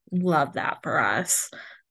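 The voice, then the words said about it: Sarcastic tone. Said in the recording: “That was sarcastic, by the way, if you couldn't pick up on it.”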